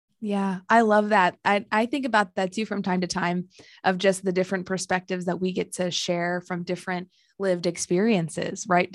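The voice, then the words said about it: American accent. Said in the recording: “you've got this lovely American accent.”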